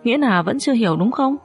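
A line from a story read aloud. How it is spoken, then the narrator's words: Quiet, smiling. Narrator (Vietnamese): Tống Minh Hạo im lặng mỉm cười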